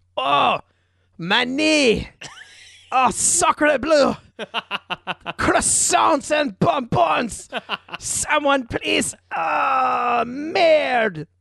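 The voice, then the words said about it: Put-on French-Canadian accent. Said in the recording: “an excellent French-Canadian accent”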